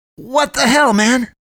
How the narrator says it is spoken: he yells, loud enough that a tired shout comes from somewhere else in the house

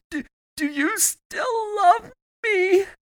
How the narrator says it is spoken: drunkenly sobbing between each word

